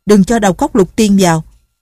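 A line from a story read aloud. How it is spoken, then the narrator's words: Shout. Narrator (Vietnamese): Tổ Thiên Thu la lên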